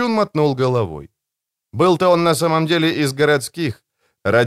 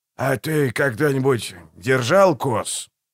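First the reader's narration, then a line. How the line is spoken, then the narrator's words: Soft polite question. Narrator (Russian): Так же мягко и вежливо спросил Далси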